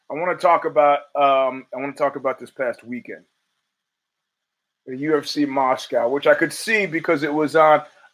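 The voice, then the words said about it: Hoarse voice. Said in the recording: “that's why I'm hoarse.”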